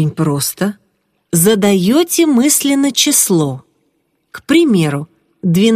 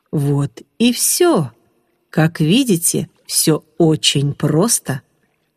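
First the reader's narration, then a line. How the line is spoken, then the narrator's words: Calm voice. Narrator (Russian): проговорил спокойным голосом Ариман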